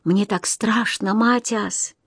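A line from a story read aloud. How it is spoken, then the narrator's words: Whisper. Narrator (Russian): я прошептал ему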